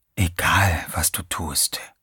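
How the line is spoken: Whisper inside one's head. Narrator (German): flüsterte eine Stimme in Teddys Kopf

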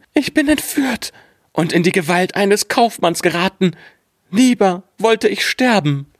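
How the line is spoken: Frightened cry. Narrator (German): rief sie ganz erschrocken

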